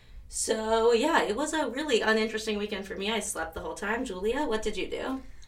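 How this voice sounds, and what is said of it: Sleepy voice, sounds like a cold. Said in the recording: “we are a little bit sleepy, and I am getting over a cold. I don't know if you can hear it in my voice.”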